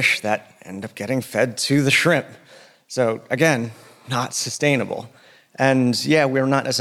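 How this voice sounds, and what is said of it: Usual voice. Nothing is said of it.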